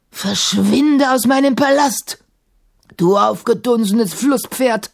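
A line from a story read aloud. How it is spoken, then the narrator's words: Roar through chattering teeth. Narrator (German): brüllte Sahim, während seine Zähne klapperten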